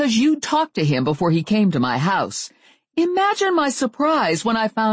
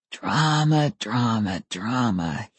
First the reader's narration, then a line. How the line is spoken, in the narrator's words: he whispered